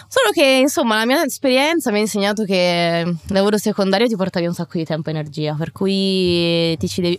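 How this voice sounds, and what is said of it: Italian speech with Tuscan accent. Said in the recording (Italian): “Vedi, adesso ho l'accento toscano... Si adatta l'accento sull'argomento... mashup di accenti”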